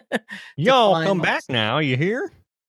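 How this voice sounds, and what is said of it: Imitated Southern accent. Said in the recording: “he's like has this Southern accent”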